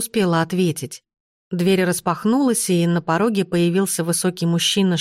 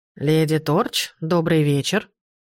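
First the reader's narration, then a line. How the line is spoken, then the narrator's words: Booming unfamiliar voice. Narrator (Russian): прогудела фигура голосом, совсем не похожим на отрезвляющий голос Демьена Дарча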